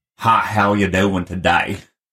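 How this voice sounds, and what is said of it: Imitated Texan accent. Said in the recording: “Texan is a whole other language ... They read it in Texan ... I don't have much of an accent ... if you listen to my brother and my dad”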